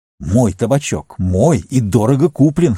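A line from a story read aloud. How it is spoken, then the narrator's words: Hoarse cry. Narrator (Russian): хрипло вскрикнул Саруман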